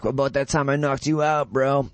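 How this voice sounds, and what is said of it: Imitates another person's voice. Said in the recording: “This is Garbrandt, my impression of Garbrandt.”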